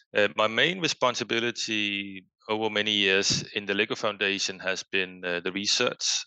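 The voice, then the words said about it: Danish accent. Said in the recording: “as one might hear from my accent, I am from Denmark”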